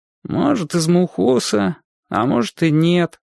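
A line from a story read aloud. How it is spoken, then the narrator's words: Glum boy. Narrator (Russian): уныло ответил мальчик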